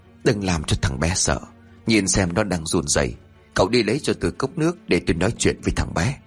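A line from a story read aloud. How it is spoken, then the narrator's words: Soft reply. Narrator (Vietnamese): Lão Lang khẽ đáp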